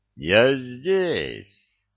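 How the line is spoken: Drunken announcement. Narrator (Russian): пьяным голосом объявил он

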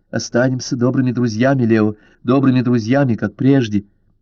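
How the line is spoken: Unsteady, quiet, plaintive, hurried. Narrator (Russian): Нетвердым, тихим, жалобным голосом торопливо проговорила

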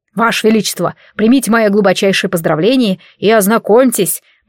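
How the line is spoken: Loud bark. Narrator (Russian): гаркнул Вафель

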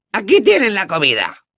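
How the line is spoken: Elf squeaking. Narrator (Spanish): chilló un elfo

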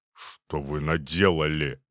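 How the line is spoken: Grumbled. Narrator (Russian): буркнул

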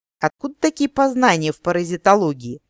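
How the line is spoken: Mocking, grumpy older woman. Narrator (Russian): насмешливо спросила немолодая дриада, поразительно похожая сварливыми интонациями на Желудьковскую

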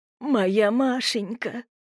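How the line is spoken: Sobbing. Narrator (Russian): раздались всхлипывания

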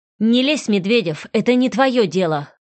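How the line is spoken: Angry snapping. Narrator (Russian): злобно огрызнулся Артем

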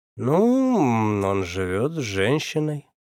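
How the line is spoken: Drawled. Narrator (Russian): протянул я

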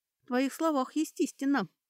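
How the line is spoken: Sighing. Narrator (Russian): вздохнула Кэтрия

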